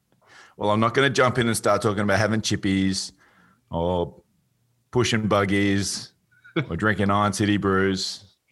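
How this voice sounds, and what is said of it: Australian accent. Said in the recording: “speaking in my natural Australian accent ... your Patrick Swayze Australian accent”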